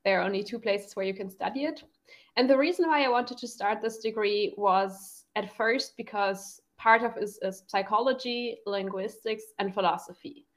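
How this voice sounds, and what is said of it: German accent in English. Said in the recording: “I'm from Germany, like you too. Maybe we should mention this just to explain my accent a bit.”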